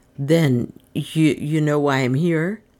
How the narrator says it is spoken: he stammered

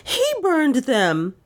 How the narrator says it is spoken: she cried wildly

